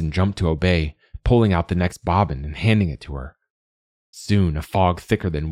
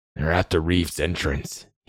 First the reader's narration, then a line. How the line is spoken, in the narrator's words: muttered